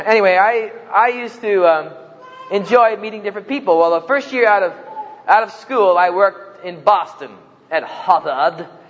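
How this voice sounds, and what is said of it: New Jersey accent. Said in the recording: “as you notice from my accent, I'm not native of Oklahoma. I'm a native of New Jersey”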